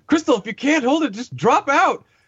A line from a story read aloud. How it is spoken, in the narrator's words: Matty like yells at her, says